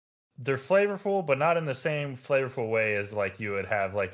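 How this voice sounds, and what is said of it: Usual voice. Nothing is said of it.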